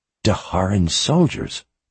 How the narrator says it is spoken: she whispered

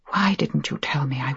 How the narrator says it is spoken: I whispered

